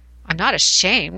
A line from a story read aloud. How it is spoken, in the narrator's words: chuckled